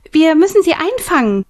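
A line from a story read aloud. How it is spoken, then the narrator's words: Called out. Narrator (German): rief Millie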